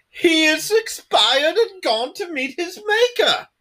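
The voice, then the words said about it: John Cleese impression. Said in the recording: “John Cleese has a very particular voice”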